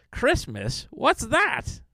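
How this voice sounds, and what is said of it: Cartoon villain character voice. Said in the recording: “Skeletor impression”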